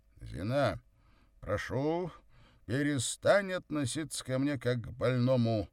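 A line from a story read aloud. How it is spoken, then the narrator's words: Stern. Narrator (Russian): Строго сказал Савва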